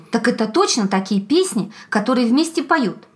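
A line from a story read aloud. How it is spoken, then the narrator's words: Hare exclaiming. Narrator (Russian): Заяц воскликнул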